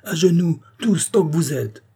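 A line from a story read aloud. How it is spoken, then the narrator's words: Shouted. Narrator (French): cria Rouget de Lisle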